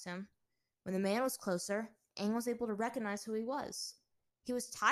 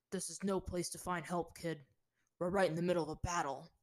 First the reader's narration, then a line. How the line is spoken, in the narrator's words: Tyro said gruffly